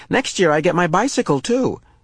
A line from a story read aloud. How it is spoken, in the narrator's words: she added more cheerfully